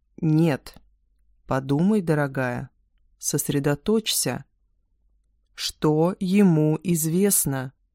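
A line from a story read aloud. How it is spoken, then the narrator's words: Slow, emphatic. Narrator (Russian): Медленно с нажимом произносит Марк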